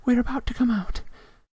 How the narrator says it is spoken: Hermione breathed

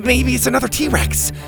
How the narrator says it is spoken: Beau said excitedly

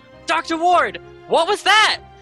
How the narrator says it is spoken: she just yells

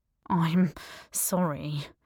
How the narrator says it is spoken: he said quietly

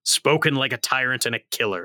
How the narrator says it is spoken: snarled Guardia

